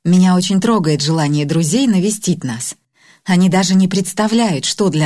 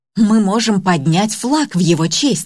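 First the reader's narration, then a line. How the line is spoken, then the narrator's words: Joyful exclamation. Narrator (Russian): радостно воскликнула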